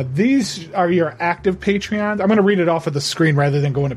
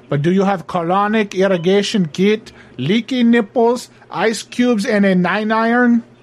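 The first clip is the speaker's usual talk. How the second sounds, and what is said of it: Put-on Mexican accent. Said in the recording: “all of a sudden I have a Mexican accent”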